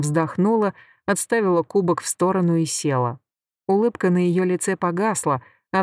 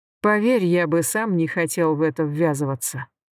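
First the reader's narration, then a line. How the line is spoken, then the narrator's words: Sighing. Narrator (Russian): Данак вздохнул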